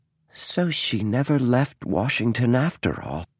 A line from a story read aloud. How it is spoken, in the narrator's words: murmured the author